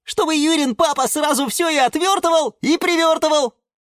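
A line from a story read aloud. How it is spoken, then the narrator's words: Children shouting together. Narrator (Russian): закричали малыши рассада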